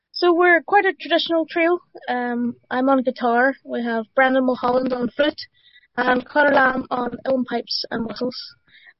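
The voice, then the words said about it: Belfast accent. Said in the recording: “a lovely Belfast accent”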